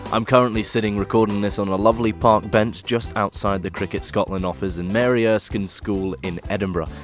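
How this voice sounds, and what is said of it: English accent. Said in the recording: “that's a fun one to say with the English accent”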